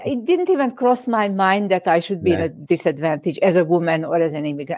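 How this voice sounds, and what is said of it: Immigrant's foreign accent. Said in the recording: “as an immigrant, you know, people like my accent. I hate it, but they love it”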